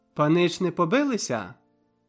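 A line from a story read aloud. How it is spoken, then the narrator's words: Cheerful chirping. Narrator (Ukrainian): защебетала весело Пазя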